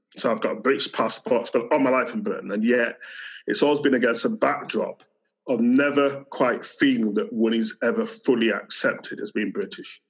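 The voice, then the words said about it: Yorkshire English accent. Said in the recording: “this is a Yorkshire accent.”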